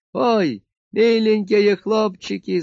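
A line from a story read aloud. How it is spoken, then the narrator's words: Wailing. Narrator (Russian): завопила Марфута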